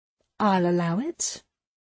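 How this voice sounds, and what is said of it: Mock regal, haughty voice. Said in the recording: “I put on my best regal voice.”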